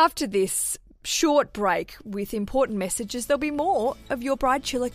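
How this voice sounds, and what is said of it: Usual voice. Nothing is said of it.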